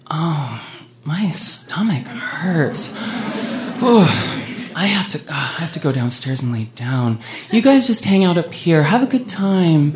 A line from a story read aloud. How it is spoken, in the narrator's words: Heather, within a matter of minutes, groaned and was like